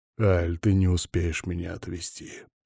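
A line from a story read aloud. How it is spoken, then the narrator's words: Quiet. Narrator (Russian): проговорил ей тихо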